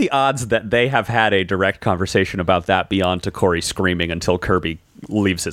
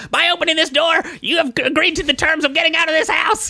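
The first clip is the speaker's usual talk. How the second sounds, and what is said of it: Impression of the character Takori. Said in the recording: “I love your Takori impression. That's so good.”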